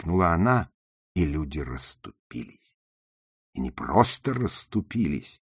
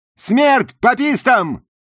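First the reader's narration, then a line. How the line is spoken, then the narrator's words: Shout, southern US accent. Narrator (Russian): крикнула Джуди, превосходно имитируя акцент жителей юга США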